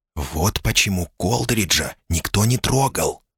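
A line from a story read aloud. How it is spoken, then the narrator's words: Whispered. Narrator (Russian): шепнула она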